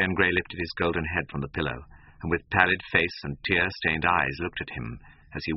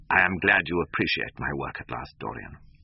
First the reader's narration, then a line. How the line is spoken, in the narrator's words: said coldly